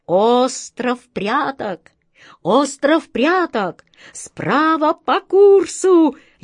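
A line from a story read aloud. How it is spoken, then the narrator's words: Jubilant shout, bird. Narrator (Russian): ликующим голосом закричала ласточка-два пятнышка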